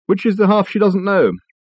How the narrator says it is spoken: Richard sighed

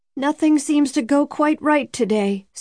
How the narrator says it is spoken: said a woman farther back in the car, in a loud, quivering voice

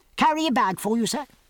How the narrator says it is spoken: piped a voice

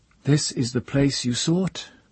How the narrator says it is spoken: Aha said, and her voice was steady

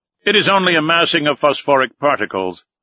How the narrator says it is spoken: cried one of the officers

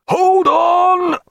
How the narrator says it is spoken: roared in his ear

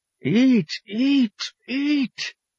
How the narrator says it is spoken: the Pope's child cried

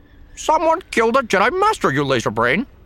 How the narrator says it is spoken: He was so irritated that his voice warbled

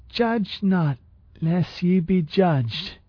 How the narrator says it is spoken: slurred

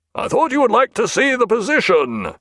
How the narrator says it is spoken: said Jack, in a mild roar

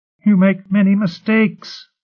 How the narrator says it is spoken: Ryle pleaded

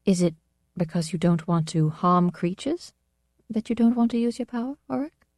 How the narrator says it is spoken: asked, quite timidly

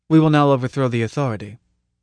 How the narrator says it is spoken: he said blandly

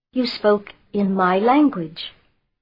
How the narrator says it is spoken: controlling himself, he said calmly

